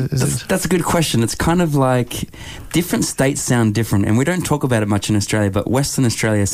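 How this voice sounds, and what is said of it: Usual voice. Nothing is said of it.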